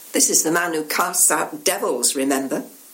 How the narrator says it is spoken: The old man, apparently a cynic to the core, snorts

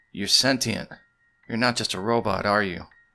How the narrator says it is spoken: said Marcus

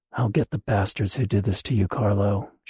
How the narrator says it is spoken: she muttered

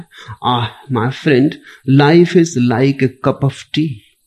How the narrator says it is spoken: said with a sigh

